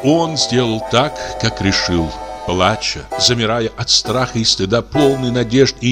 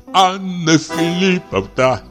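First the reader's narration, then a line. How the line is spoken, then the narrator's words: Sobbing. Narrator (Russian): сказал он, всхлипывая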